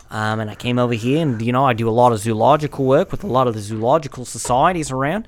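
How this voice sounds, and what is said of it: Put-on Australian accent. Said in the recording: “pretty good fucking Australian accent”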